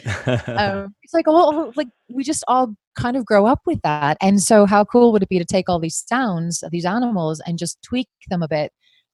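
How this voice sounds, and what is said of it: Mixed South African and British accent. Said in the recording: “You also have a very vagabond accent too. ... a little touch of South African, a little bit of British, a little bit of everything going on there”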